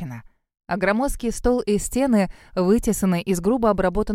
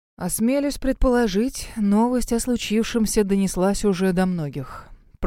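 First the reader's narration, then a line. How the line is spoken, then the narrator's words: Mournful voice. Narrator (Russian): проговорил он скорбным голосом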